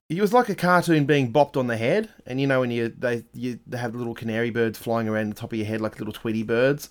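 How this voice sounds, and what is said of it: Voice sounds a bit off, unwell. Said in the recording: “My voice is a bit funny because I've still got the walking pneumonias ... My voice isn't as good as it would normally be”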